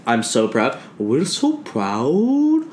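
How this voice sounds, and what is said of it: Long, drawn-out imitated accent. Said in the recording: “doing my grandma's accent ... it's a really long and drawn out”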